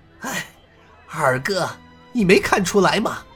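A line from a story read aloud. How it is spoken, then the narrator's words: Sighing. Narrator (Chinese): 洪金宝叹声道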